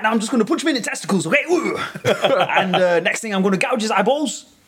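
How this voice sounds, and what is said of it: Imitates another person's voice. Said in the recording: “that is Ian ... you don't quite sound right, but not a bad ... The accent wasn't quite there.”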